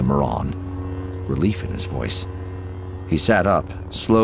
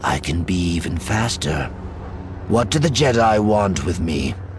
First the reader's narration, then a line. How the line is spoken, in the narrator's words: she asked, adding bitterly